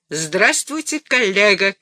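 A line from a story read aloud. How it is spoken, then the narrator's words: Shouting. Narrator (Russian): крикнул он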